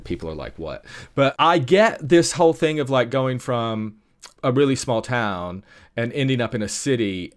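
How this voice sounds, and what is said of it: Mixed American-British accent. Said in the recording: “my kooky mixed up accent. I've lived in the UK for a really long time, but I'm originally from East Tennessee”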